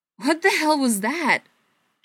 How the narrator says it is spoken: Joe yelled, his voice tinged with something close to panic

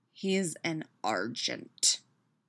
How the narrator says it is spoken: Peter growls

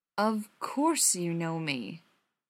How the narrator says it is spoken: said slowly

